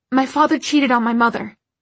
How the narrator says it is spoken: Isabel blurted out

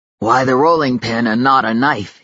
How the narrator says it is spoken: he asked, his voice raspy with the need for action

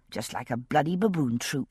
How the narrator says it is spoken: I muttered under my breath

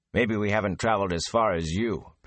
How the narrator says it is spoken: Perrin said flatly

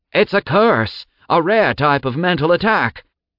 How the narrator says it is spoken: Gilau screamed from behind

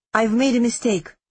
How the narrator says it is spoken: I said

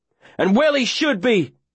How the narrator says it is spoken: I yell back, 'cause there ain't no stopping my noise now

